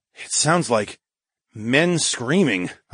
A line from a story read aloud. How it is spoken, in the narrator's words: I grunted